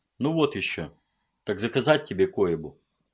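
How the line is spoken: Sighing. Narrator (Russian): Он вздохнул

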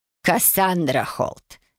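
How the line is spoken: Sharp bark. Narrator (Russian): рявкнула она, сразу же все поняв

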